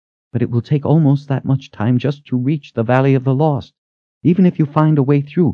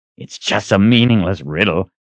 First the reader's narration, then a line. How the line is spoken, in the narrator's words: Richard growled in frustration